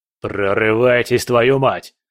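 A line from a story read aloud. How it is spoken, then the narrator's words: Barking into radio. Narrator (Russian): рявкнул он в рацию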